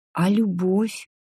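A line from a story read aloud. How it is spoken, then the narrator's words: Barely audible whisper. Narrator (Russian): едва слышно прошептала Джулиана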